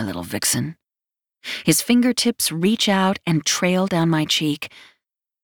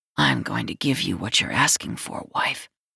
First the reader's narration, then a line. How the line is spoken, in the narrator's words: he whispers in my ear